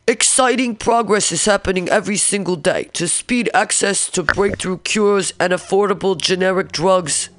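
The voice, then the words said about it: Impression of a politician's voice. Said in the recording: “Let me do his voice again.”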